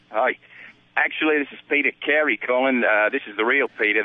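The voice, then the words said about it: Put-on accent, fairly decent attempt. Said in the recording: “it wasn't a bad crack at the accent ... that crocodile wrestler's got us all speaking this way”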